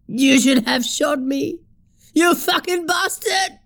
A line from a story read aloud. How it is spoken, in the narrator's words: screamed